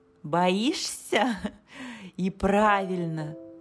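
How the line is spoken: Laughing. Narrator (Russian): засмеялась она

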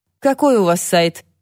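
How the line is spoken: Dry question. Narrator (Russian): сухо спросил

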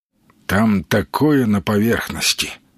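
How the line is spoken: Tired moose. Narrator (Russian): устало проговорил лось

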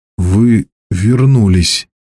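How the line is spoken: Forced out words. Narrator (Russian): выдавил я наконец

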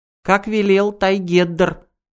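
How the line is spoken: Squeaky voice. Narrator (Russian): пропищал Дио Дао

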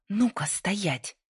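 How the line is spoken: Hissing, breaking into shout. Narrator (Russian): прошипела Лайза, срываясь на крик

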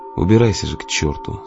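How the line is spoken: Quiet, almost thoughtful. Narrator (Russian): сказал он тихо и почти задумчиво

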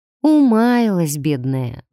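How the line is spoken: Sighing. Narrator (Russian): вздохнула я

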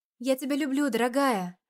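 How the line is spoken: Smiling breathed words, mother. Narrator (Russian): Улыбаясь, выдохнула мама

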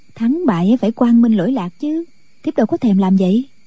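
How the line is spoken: Young woman, smiling. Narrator (Vietnamese): Thiếu phụ mỉm cười

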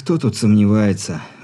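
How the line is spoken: Sigh. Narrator (Russian): вздохнул Ерохин

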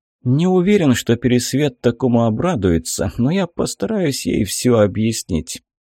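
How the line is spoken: Heavy sigh. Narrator (Russian): тяжело вздохнул командир

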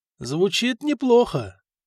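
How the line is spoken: Thoughtful drawl. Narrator (Russian): все так же задумчиво протянул герцог

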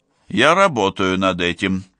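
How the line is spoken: Snort. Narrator (Russian): Вулков хмыкнул

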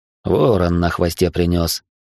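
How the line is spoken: Amused snort. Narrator (Russian): хмыкнул дядя

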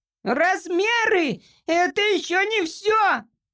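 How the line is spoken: Indignant squeak. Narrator (Russian): пропищал негодовавший Джимпер

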